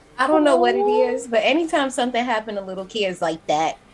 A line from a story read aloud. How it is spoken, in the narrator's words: I laugh because the shit is funny